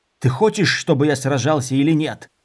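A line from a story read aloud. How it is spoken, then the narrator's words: Growl. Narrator (Russian): зарычал Дорин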